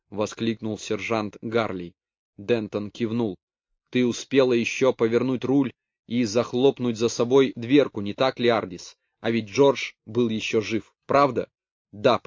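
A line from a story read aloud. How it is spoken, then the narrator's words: Whisper. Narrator (Russian): прошептала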